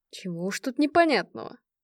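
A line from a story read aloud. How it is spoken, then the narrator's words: Grumbled mutter. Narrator (Russian): пробурчал Дереда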